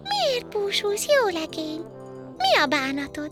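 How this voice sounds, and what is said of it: Tiny bell-like little girl's voice. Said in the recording (Hungarian): “Meg is szólítja a kislány csengettyű hangon.”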